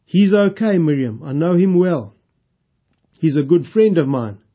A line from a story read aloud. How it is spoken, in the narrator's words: he said